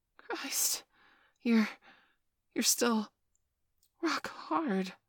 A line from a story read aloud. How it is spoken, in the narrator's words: I gasped